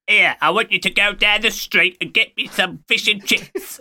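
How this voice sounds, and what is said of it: Bad put-on Cockney accent. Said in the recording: “the worst Cockney voice acting ... to do a Michael Caine impression, oh, you're not very good at it”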